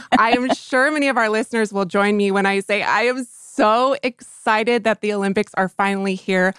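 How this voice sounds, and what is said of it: Usual voice. Nothing is said of it.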